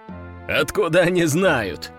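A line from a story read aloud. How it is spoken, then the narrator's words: Laughing loudly. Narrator (Russian): расхохотался майор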